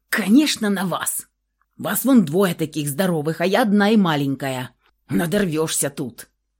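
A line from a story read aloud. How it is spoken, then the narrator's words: Grumbling woman. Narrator (Russian): Продолжила ворчать хозяйка помещения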